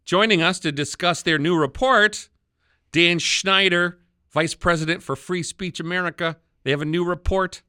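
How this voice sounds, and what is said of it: Wisconsin accent. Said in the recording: “your Wisconsin accent”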